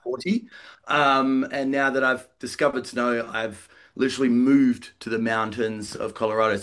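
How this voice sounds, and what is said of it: Australian accent. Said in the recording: “you might hear my accent. Originally from Australia”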